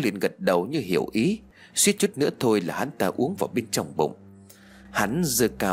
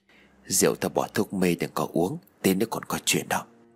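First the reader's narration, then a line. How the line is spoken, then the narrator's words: Close whisper. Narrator (Vietnamese): Tư ghé sát tay của Sáu mà thì thầm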